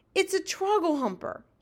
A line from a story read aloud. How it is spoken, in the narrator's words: he shouted